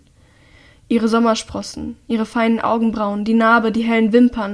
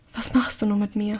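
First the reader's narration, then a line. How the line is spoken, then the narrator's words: Breathy whisper. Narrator (German): haucht sie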